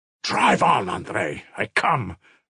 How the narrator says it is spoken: Mitya exclaimed feverishly

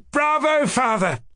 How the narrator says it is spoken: cried Kolya gleefully

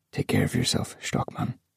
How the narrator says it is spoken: he whispered

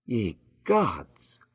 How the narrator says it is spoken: murmured

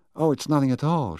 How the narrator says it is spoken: she cried with a sudden shrill note in her voice

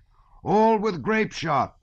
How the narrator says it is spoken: shouted the officer

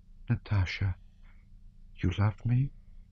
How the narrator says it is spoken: she said in a soft, trustful whisper

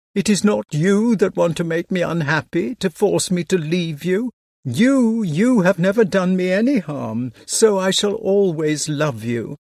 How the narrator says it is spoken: was assuring through my sobs

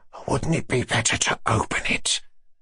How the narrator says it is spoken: He whispered ingratiatingly, and, as it were, confidentially

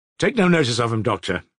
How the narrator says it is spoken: he repeated, rather impatiently

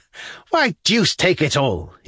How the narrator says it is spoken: he cried

